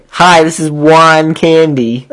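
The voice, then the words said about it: Comedic character voice impression. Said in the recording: “best Juan Candy impersonation”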